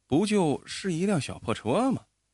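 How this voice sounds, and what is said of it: Quiet muttering. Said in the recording (Chinese): “小声嘀咕着”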